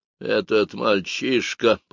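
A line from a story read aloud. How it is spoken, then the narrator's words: Through gritted teeth. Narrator (Russian): процедила она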